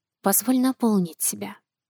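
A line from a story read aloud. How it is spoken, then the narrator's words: Whisper. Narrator (Russian): шепнула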